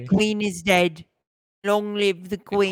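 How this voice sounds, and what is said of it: Old-fashioned British accent. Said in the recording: “Old British accent.”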